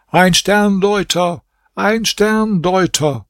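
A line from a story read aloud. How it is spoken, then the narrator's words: Repeated call. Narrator (German): Kamr Essaman rief zum dritten Mal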